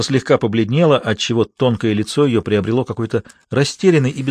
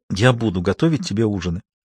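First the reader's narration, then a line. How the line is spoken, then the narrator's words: Quiet. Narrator (Russian): сказала она тихо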